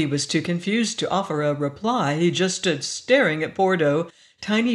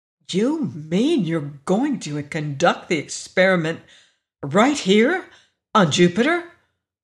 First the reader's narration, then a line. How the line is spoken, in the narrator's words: Augie exclaimed wide-eyed